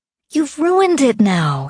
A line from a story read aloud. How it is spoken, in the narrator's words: she said, looking sadly